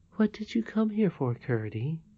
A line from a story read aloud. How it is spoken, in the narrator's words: she said as gently as before